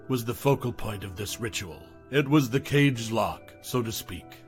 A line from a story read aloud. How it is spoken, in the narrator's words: his voice lowered